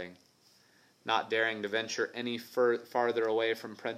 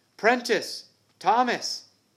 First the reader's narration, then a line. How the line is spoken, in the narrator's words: He shouted